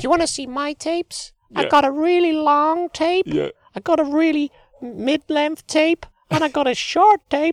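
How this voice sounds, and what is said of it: Squeaky imitation of another person's voice. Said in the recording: “You do a really good squeaky voice”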